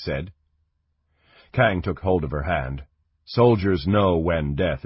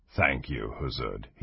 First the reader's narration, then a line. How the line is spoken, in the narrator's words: he said quietly